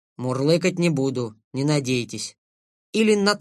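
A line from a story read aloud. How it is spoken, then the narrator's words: Embarrassed grumble. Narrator (Russian): Тот, смущенный, не стал возражать, лишь буркнул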